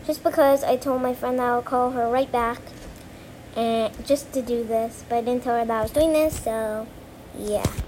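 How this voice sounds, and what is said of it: Talking very fast. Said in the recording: “I'm talking really fast”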